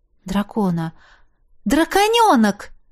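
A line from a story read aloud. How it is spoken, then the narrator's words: Exclaimed. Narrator (Russian): воскликнула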